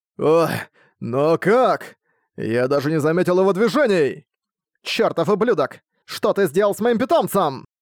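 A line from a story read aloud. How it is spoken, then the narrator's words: Threatening shout. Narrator (Russian): Угрожающе спросила появившаяся из тумана Родиан, которая стыдом прокричала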